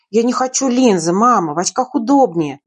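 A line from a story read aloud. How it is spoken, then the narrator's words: Timid grumble. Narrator (Russian): бурчала, но при этом не решалась даже взгляды поднять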